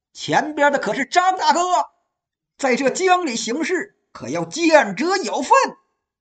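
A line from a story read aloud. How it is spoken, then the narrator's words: Shout across river. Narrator (Chinese): 江面上有人大喊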